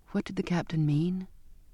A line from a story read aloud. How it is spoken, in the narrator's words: I asked, my voice small